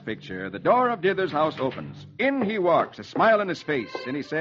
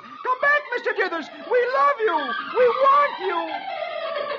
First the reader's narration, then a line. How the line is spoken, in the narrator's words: Dagwood yells